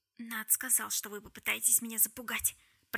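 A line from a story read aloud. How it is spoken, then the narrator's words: Whispered. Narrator (Russian): прошептала Джессамина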